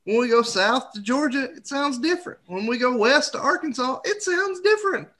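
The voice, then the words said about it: Nasal Tennessee Southern accent. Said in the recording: “what I'm speaking to you in, is sinusy, nasally Tennessean”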